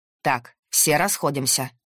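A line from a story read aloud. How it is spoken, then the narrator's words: Stern. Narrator (Russian): строго сказал он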